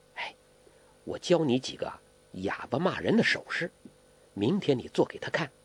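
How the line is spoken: Low voice. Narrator (Chinese): 黄蓉低声说

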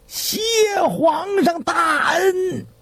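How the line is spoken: Loud shout. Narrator (Chinese): 吕元佑…高声喊道

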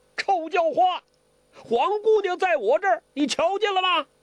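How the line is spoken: Loud shout. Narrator (Chinese): 高声地叫

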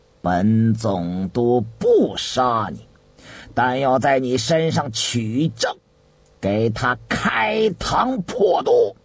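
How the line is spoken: Cold harsh. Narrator (Chinese): 殷正茂冷冷一笑，厉声地回道

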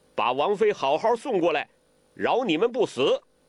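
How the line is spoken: Loud bellow. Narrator (Chinese): 完颜洪烈大声喝道

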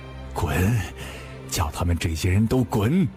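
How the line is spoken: Panting heavily. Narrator (Chinese): 喘了几口粗气道

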